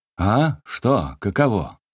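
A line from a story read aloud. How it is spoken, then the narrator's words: Muffled shout from darkness. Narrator (Russian): глухо кричал Лукьян Степанов из темноты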